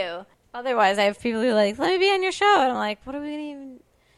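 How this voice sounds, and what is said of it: Usual voice. Nothing is said of it.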